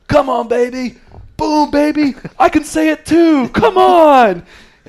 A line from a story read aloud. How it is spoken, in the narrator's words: Bubba yells